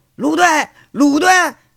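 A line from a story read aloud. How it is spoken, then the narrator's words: Policeman shouting. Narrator (Chinese): 一名警察喊着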